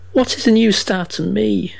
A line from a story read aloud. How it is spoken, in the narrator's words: cried the weeping woman, kneeling beside her dead